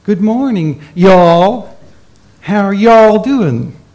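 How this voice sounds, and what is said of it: Poor put-on American accent. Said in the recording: “My accent's no good”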